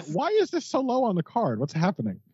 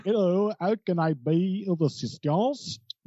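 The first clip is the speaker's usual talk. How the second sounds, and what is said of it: Incredibly exaggerated put-on accent. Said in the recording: “Incredibly exaggerated accent.”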